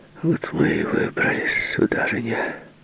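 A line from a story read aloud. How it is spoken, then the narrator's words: Muttering. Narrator (Russian): пробормотал он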